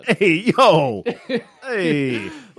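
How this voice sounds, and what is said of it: Put-on New York accent. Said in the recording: “This is a great New York accent.”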